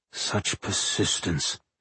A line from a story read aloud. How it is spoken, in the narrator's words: he said softly